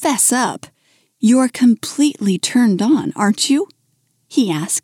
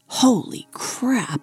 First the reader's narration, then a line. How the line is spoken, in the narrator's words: he whispered